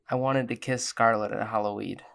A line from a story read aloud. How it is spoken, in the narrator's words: Dakota leans in to quietly say